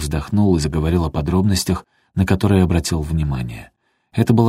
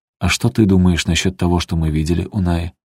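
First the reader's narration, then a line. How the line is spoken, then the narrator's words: Plain. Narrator (Russian): спросила Эсти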